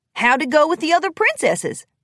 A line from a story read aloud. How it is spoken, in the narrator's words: Applejack smiled brightly